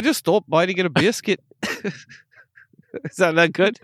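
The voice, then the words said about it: Poor put-on Islay accent. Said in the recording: “That's probably how you would sound after a few years living on Isla... my accents are not good. They're not good.”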